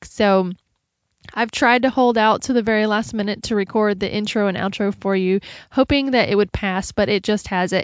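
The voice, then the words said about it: Congested voice from a cold. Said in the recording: “I don't know if you can tell, but I have a cold ... I just had a runny nose session for the last 3 days”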